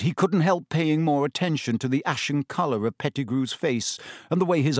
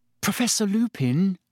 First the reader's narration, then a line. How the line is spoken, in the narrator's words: said Hermione timidly